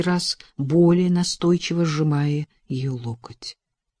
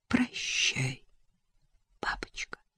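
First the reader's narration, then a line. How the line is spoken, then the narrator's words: Breathless whisper. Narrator (Russian): прошептала Элизабет, чувствуя, как тяжело ей дышать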